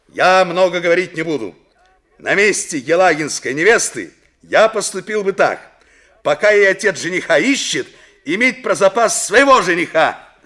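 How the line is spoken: Loud over uproar. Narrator (Russian): Мельников посреди общего неожиданно поднявшегося шума громко сказал

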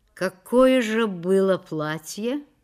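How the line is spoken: Chuckling, lazy drawl. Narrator (Russian): он усмехнулся в темноте и, лениво растягивая слова, спросил

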